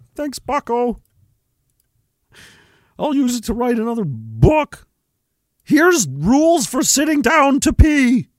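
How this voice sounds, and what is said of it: Deliberately bad Peterson impression. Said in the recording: “That's not even a good impression at all, and I feel like that's why it's funny, because it's terrible.”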